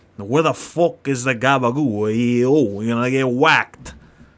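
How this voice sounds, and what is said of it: Put-on New York Italian accent. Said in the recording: “Oh, it's like a New York. ... New York accent. ... Like Italian. ... New Jersey man over there.”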